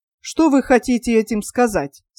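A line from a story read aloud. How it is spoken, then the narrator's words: Plain question. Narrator (Russian): спросил Костин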